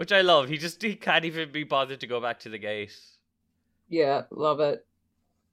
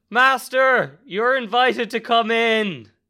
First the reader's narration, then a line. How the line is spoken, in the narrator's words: Wukong shouts